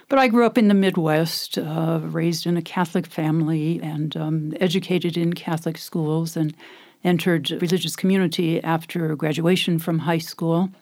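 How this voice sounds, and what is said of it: American accent. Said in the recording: “as you can tell from my accent, I'm from America. I haven't lost that accent”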